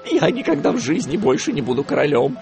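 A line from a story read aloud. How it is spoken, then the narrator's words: Frightened reply. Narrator (Russian): испуганно ответил тот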